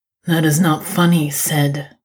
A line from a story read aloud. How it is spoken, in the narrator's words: he growls